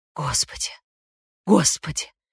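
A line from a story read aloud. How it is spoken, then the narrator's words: Trembling mutter. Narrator (Russian): бормотал он трясущимися губами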